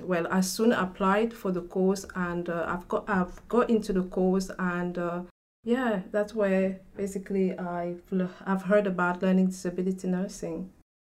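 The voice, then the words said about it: Cameroonian French-influenced accent. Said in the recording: “I can hear from your accent, you're like me... I come from Cameroon in Africa. So in Cameroon, we speak French.”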